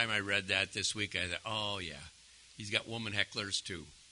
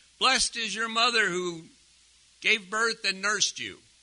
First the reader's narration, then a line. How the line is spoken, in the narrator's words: a woman called out of the crowd